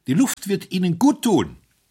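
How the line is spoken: Called out. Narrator (German): rief

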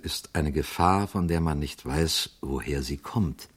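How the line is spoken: Quiet priest's voice. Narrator (German): sagte der Priester leise

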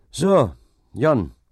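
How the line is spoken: Calling out. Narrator (German): rief dieser

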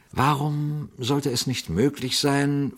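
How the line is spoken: Quiet question. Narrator (German): fragte Pater Braun leise

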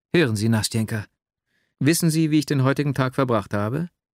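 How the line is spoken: Overflowing emotional cry. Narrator (German): Schließlich floss mein Herz über und ich rief

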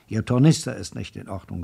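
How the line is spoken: Sharp. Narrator (German): sagte er scharf

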